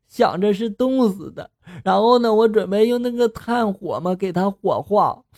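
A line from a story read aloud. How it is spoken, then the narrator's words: Tearful voice. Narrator (Chinese): 他继续的带着哭腔说了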